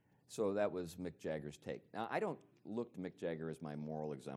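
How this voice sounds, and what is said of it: Usual voice. Nothing is said of it.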